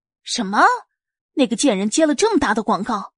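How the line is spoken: Furious outburst. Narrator (Chinese): 柳如梅听了更是勃然大怒

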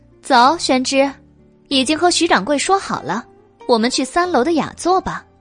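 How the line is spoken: Laughing. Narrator (Chinese): 白姬笑道

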